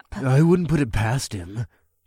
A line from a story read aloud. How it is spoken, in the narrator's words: Kalon growled